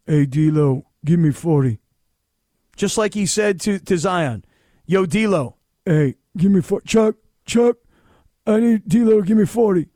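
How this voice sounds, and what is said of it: Bad Shaq impression. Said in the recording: “terrible Shaq impersonation ... whose Shaq impersonation is worse, mine or yours? ... none of them are good”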